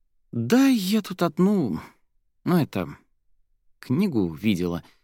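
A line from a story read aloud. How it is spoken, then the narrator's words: Evasive mumbling. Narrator (Russian): замямлила Соня, уходя от ответа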